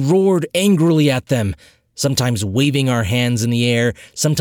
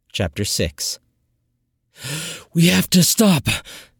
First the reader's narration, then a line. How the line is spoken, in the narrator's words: I gasped, hunched over the sharp pain that was building in my diaphragm